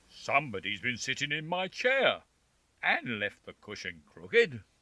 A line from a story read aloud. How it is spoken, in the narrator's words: growled the father bear in his great big voice